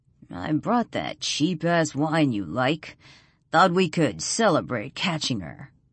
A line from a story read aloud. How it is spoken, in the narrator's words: Black Hat chuckles